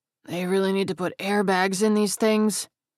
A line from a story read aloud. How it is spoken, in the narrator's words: Webb groaned